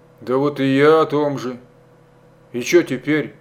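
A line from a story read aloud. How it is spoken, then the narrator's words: Sighing. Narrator (Russian): Стародубцев вздохнул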